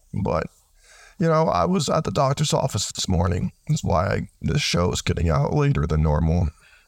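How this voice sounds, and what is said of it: Rough, sick-sounding voice. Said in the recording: “I'm sick, and my voice has been rough... if my voice sounds really bad”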